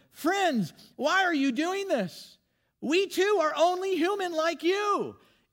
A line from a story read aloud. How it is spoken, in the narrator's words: the apostles, Paul and Barnabas, shouting